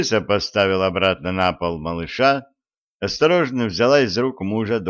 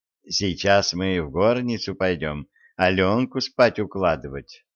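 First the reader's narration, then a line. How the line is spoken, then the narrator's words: Plain. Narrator (Russian): сказала она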